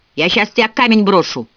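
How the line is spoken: Shouting. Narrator (Russian): крикнула Милли

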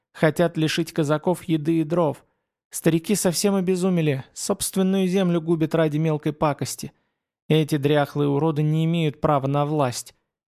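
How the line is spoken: Sorceress sighing. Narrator (Russian): чародейка вздохнула

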